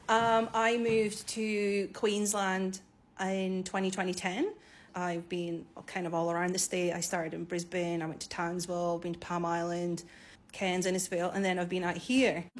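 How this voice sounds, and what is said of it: Scottish accent. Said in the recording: “You've probably detected an accent by now. ... So I'm Scottish.”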